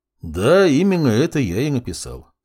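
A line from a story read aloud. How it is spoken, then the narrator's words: Calm. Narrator (Russian): спокойно кивнул полковник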